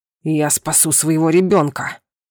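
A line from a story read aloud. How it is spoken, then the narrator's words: Growled. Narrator (Russian): прорычал Сунир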